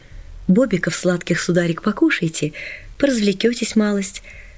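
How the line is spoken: Gentle, sing-song. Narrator (Russian): Сказала ласково, пропела словно

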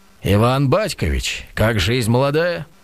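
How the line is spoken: Jaunty booming voice. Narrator (Russian): По-молодецки прогудел

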